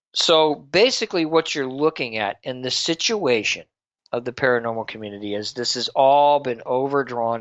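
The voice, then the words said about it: Voice giving out, strained. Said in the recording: “Excuse me. I'm losing my voice here.”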